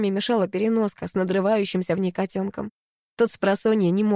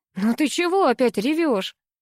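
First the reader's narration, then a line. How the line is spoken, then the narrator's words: Laughing. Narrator (Russian): рассмеялся Богдан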